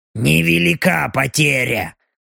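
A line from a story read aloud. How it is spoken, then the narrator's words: Grumbled. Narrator (Russian): проворчала Белочка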